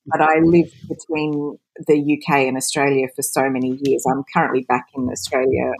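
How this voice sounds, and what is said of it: Australian accent. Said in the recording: “You can probably tell from my accent I'm Australian”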